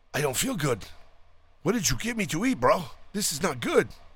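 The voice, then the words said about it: Put-on Lebanese accent. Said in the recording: “I'm doing a Lebanon accent.”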